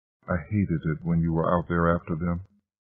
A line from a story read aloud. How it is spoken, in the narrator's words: Caitlin finally whispered